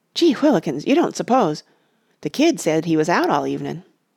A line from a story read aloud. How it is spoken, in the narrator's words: another replied in a startled voice